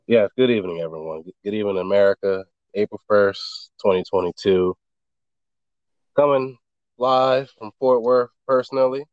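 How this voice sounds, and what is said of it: Slightly scratchy voice. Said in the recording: “This pollen is crazy... My voice is a little scratchy tonight.”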